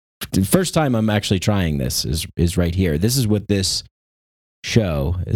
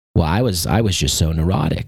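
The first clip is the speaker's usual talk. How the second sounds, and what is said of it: Ram Dass impression, slight Boston twang. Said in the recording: “do a Ram Dass impression. It's a young Ram Dass when he was still Richard Alpert. He kind of had like a little bit of a Boston twang.”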